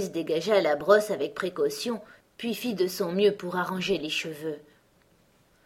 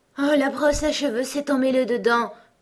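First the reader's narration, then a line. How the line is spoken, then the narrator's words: Queen, deep sigh. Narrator (French): dit la reine en poussant un profond soupir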